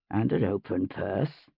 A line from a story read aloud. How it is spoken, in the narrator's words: Lord John murmured